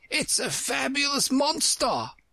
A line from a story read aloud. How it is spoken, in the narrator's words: the unicorn cried out